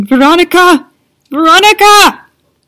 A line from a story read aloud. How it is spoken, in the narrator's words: the desperate cry of a woman shouting